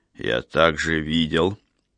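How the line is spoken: Quiet but stern. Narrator (Russian): проговорил он тихо, но строго

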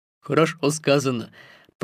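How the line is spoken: Grumbling. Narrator (Russian): проворчал Балу

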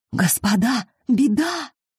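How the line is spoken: Dreadful whisper. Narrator (Russian): страшным шепотом сообщили им

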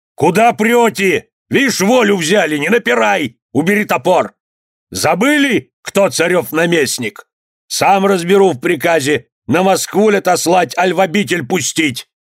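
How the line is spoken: Shouted. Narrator (Russian): Воевода крикнул

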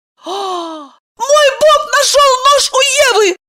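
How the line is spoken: Shrill squeal. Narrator (Russian): взвизгнула Евдокия

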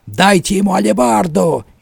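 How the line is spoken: Roaring. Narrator (Russian): еще раз проревел он

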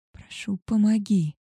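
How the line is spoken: Moaning plea. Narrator (Russian): простонала я

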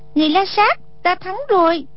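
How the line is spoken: Cry out. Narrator (Vietnamese): Song Nhi kêu lên

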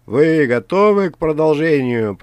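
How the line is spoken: Shouted into microphone. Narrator (Russian): прокричал ведущий в микрофон

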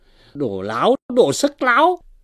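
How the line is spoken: Furious shout. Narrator (Vietnamese): Võ hành giả nóng tiết lên, bất phân phải trái quát lên rằng

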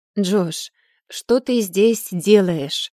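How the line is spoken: Tired question. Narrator (Russian): спросила я усталым тоном

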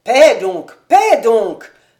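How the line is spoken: Exclaiming. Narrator (French): s'écria Gerder

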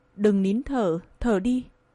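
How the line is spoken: Hoarse murmur. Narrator (Vietnamese): Lệ Nam Hành dùng giọng khàn khàn nói

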